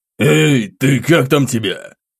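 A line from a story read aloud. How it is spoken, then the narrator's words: Spluttering growl. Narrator (Russian): прорычал он, брызгая слюной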